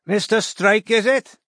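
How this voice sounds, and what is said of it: Welsh accent. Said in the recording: “said the smiling, white-shirted man, whose accent was Welsh”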